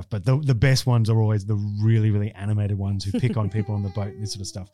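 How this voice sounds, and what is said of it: Australian accent. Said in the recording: “Being an Aussie, as soon as I pipe up, I'm a target. ... Accent.”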